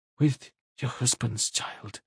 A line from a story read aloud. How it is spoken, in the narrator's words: Anna whispered